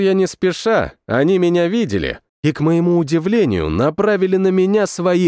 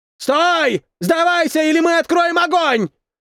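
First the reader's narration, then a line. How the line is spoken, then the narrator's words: Shouting. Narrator (Russian): закричал один из них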